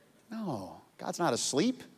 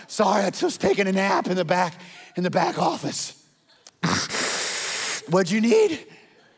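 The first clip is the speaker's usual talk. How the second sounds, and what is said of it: Sleepy out-of-shape middle-aged man voice. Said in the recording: “like some out of shape, middle-aged jogger in a velvet tracksuit ... That's his impression.”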